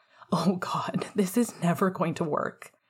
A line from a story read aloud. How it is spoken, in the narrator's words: Remus laughed, buried within a groan